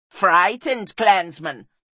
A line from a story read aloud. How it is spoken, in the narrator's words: sneered Bartha